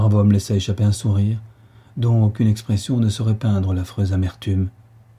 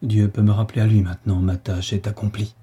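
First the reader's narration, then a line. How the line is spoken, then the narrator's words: Murmured. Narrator (French): murmura-t-il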